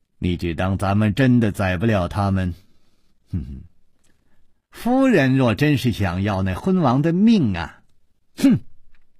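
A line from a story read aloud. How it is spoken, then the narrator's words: Tinkling coquettish laughter. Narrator (Chinese): 长孙弘却忽然银铃般的娇笑起来，说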